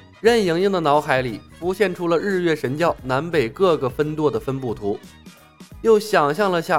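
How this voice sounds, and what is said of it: Usual voice. Nothing is said of it.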